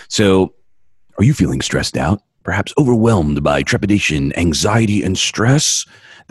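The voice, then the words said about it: Deep announcer-style radio voice. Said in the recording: “I didn't use a voice changer on that. That was me. ... That's a radio voice right there, baby.”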